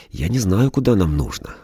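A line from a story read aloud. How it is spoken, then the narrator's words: Sighing. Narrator (Russian): вздохнул Витя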